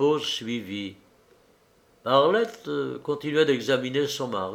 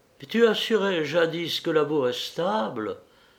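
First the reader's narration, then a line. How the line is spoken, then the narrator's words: Muffled murmur. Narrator (French): murmura-t-elle d'une voix sourde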